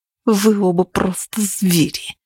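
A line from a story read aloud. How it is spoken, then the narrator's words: Hiss. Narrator (Russian): прошипела она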